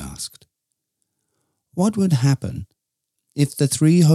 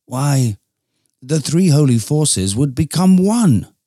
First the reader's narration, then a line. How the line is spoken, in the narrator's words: exclaimed Archangel Louisos